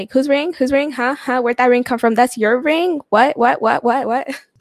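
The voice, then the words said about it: Impersonation of Bora, jealous. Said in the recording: “Your impersonations of Bora”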